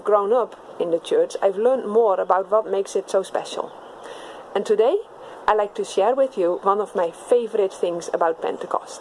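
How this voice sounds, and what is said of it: Dutch accent in English. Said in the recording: “my English sounds a little bit different from your parents' English or your teacher's English. I have an accent because I grew up speaking a different language. I grew up speaking Dutch”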